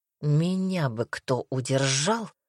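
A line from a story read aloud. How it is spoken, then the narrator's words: Groaned. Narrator (Russian): простонал Дамер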